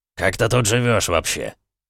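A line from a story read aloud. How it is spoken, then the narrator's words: Contemptuous snort. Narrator (Russian): Редж презрительно фыркнул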